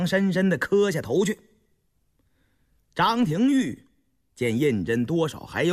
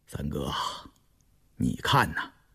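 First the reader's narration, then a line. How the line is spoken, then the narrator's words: Soft, pensive. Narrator (Chinese): 胤禛沉吟着，偏过脸轻声道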